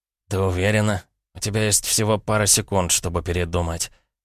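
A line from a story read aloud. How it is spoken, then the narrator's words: Hoarse male voice. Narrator (Russian): хрипло произнес он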